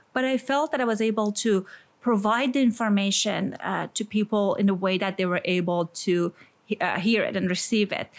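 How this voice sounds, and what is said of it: Iranian accent. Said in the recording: “as people can guess from my accent, I'm Iranian”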